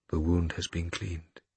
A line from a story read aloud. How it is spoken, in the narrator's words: he said quietly